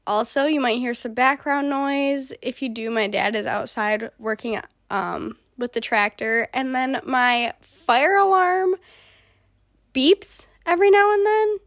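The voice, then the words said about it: Sick, congested, hoarse voice. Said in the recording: “pardon my voice if it sounds a little different. I am currently sick. I've been having a sore throat and now I have a cough and I'm congested.”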